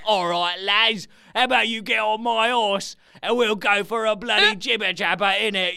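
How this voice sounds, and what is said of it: Exaggerated English accent. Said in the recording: “Everything you do is English ... let's just stop the accents there”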